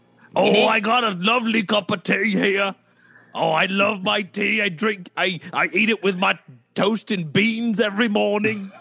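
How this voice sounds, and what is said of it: Exaggerated put-on British accent. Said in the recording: “we're pissing off everyone in the UK right now with that accent.”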